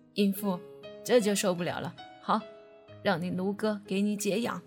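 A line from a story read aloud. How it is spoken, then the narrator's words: Leering laugh. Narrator (Chinese): 陆长青淫笑着说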